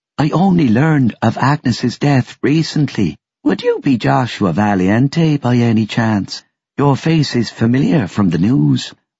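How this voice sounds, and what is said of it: Soft Irish brogue. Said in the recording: “Her voice was a soft brogue.”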